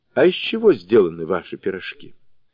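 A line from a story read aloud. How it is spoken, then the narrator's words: Calm, mustered courage. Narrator (Russian): набрался храбрости и спокойным тоном спросил чародейку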